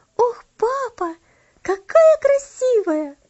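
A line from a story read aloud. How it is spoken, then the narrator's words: Exclaiming. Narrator (Russian): воскликнула она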